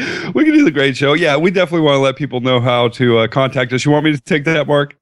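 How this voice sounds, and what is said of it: Usual voice. Nothing is said of it.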